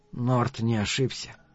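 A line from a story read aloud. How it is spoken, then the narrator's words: Quiet statement. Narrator (Russian): негромко сообщил Каттерсон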